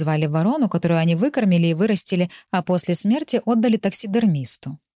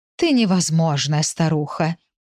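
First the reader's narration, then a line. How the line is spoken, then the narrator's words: Moaning. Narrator (Russian): простонала Фатима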